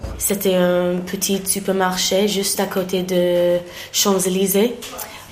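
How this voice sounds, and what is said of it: English accent speaking French. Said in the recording (French): “il a entendu mon accent. Il m'a demandé « Est-ce que vous êtes anglaise ?»”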